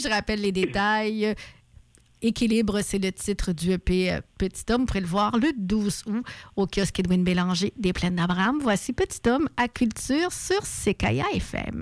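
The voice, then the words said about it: Quebec French accent. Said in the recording (French): “l'accent québécois”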